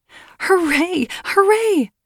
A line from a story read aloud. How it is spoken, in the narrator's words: shouted the widow